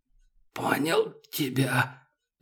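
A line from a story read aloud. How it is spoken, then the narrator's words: Hoarse old man. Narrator (Russian): прохрипел дед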